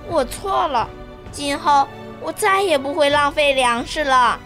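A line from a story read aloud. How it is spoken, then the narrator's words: Quiet, ashamed. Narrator (Chinese): 彤彤把头深深地低下去，小声地说道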